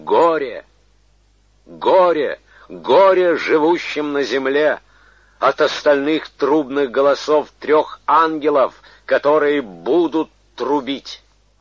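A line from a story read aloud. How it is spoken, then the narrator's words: Loud angelic proclamation. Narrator (Russian): ангела, говорящего громким голосом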